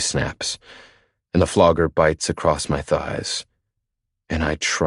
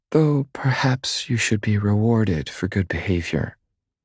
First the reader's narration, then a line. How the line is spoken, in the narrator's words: she purrs